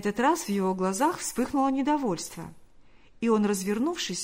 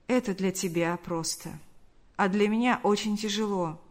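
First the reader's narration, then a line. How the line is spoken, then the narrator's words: Sad, wistful reply. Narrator (Russian): грустно улыбнулся и ответил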